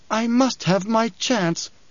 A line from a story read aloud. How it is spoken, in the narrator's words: fingers pleaded